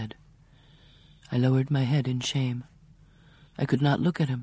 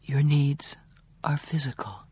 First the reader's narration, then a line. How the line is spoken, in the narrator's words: I whispered dryly